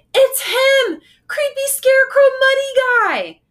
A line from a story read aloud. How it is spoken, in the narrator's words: I shouted